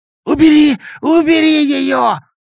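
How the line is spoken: Hoarse wailing. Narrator (Russian): Сипло вопил Беня

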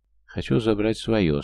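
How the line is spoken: Calm, firm, sly, gloating. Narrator (Russian): спокойно и твердо заявил Крест украдчивым голосом, наслаждаясь видом ее испуга

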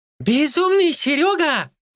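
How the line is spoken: Exclamation. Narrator (Russian): воскликнул Ли

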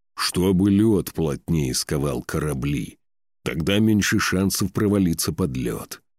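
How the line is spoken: Growled. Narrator (Russian): прорычал Торлейв

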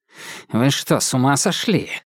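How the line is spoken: Hiss from the doorway. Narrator (Russian): зашипел он от двери

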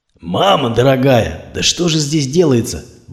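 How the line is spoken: Shocked exclamation. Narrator (Russian): воскликнул Кузьмич, когда увидел все это месиво из металла

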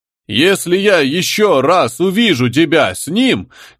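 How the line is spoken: Loud, carefully repeated recitation. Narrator (Russian): громко произнес перфоратор, старательно повторяя приходящий в скрытый наушник текст

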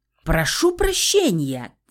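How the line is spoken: Shouted reply. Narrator (Russian): крикнул в ответ Саня

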